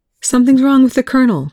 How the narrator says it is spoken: Chloe said, her voice high and tight

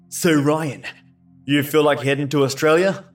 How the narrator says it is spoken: He asked excitedly

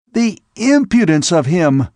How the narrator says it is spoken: he exclaimed

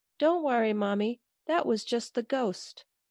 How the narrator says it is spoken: my daughter said in her tiny, elfy toddler voice

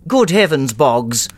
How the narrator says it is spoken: called out the ugly vicar

